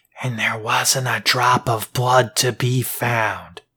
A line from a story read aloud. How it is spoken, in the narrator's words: Kit leaned forward and then whispered